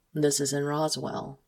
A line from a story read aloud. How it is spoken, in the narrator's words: he says calmly